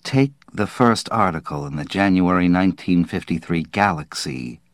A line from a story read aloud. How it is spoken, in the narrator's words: he said quietly